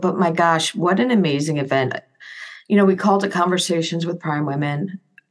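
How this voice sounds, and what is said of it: Slightly rough, hoarse voice. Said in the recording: “I think my voice is a little rough from doing all the, like a lot of talking to a lot of people”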